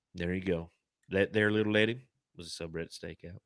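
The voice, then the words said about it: Exaggerated put-on Texan accent. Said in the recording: “That was probably like the worst fucking accent ... You got a lot of practice in Texas”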